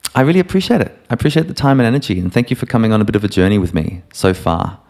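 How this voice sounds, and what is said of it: Neutral Australian accent. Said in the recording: “my neutral Australian kind of globish accent”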